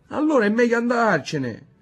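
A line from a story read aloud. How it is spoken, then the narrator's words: Boy whimpering. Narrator (Italian): piagnucolò il figlio della Locca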